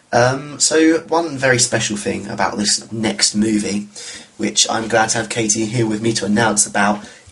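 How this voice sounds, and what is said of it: Voice affected by a cold. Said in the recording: “I've got a bit of a cold. So if I'm coughing a bit, that's why.”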